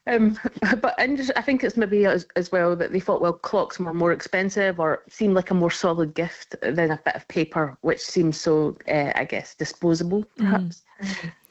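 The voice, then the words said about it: Scottish accent. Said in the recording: “I'm picking up an accent from you as well ... Originally, I'm from Scotland”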